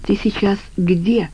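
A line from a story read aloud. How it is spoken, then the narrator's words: Whispered question. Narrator (Russian): шепотом спросила Катя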